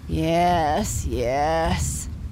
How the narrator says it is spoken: said his papa sleepily

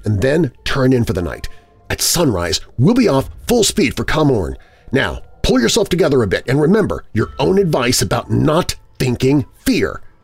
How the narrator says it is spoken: I said firmly

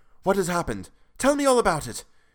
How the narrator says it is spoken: he cried without pausing

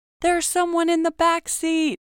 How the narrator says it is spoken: the gas attendant screams

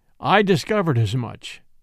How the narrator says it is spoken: said Van Alden

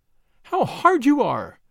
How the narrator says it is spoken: she cried

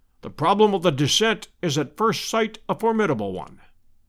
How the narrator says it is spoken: said he

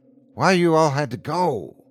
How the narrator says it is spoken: Don sighed

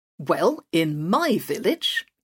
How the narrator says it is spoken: he said firmly

